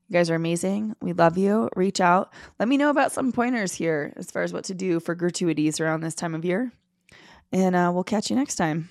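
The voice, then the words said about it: Raspy voice, speaker feeling unwell. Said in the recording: “You're not also not feeling 100%. ... my raspy voice”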